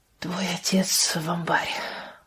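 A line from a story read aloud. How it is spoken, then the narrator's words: Low voice. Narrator (Russian): вполголоса сказала она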